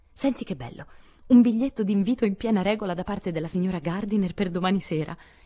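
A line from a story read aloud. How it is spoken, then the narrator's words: Delighted exclamation. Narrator (Italian): esclamò, con piacere tutto femminile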